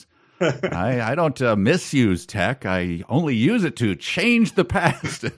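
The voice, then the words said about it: Imitates another person's voice. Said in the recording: “could be read in a Norm MacDonald voice.”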